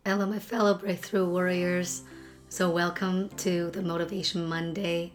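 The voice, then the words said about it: Congested, sick-sounding voice. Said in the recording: “as you can hear from my voice, it's not the most pleasant. I got a really, really bad cold.”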